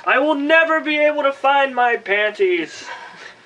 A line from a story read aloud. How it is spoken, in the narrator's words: Alex screamed to the heavens